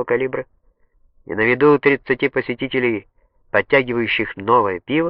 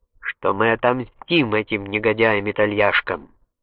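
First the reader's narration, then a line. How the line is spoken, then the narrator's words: Solemn. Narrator (Russian): произнес так торжественно, как только мог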